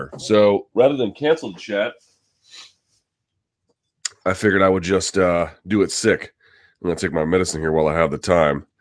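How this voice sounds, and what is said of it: Sick, unwell-sounding voice. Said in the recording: “You may be able to hear it in my voice as well. I am sick”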